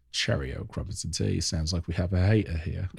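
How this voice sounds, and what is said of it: Put-on British accent. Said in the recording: “British rappers sometimes because of the accent ... you love putting on their accent”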